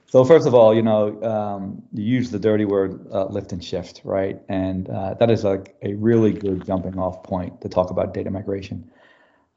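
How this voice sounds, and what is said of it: New York City accent. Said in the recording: “you can tell from my accent, I'm sure, as I get more passionate, I'm originally from New York City”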